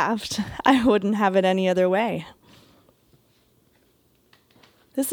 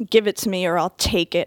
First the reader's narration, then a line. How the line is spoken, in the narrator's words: growl